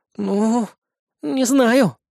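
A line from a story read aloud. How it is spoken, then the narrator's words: Uncertain reply. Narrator (Russian): неуверенно ответила Кри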